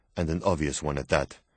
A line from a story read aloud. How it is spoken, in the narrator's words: Raven replied quickly